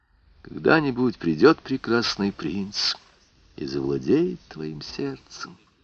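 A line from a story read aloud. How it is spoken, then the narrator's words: Whispered. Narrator (Russian): шептал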